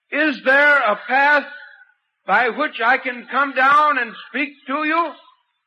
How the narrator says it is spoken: I shouted

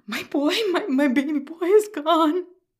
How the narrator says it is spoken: he whimpered

